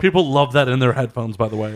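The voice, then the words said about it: Sarcastic tone. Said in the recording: “Are you being sarcastic? ... Yes, I am being sarcastic.”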